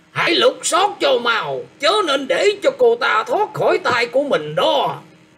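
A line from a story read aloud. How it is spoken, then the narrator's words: Old voice shouting loudly. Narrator (Vietnamese): một giọng già nua quát to lên rằng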